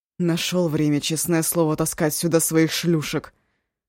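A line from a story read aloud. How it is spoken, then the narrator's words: Through gritted teeth, panting. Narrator (Russian): Сквозь зубы, тяжело дыша, сказал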